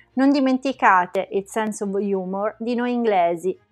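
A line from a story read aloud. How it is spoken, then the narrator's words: Plain. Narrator (Italian): disse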